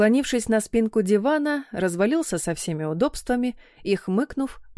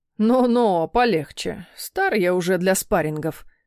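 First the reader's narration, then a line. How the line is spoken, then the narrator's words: Grumble. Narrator (Russian): пробурчал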